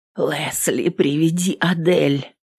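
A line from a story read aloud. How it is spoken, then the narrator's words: Woman's hoarse rasp. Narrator (Russian): прохрипела женщина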